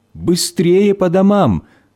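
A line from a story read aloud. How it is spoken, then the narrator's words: Shouting from afar. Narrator (Russian): родители, они еще издалека кричали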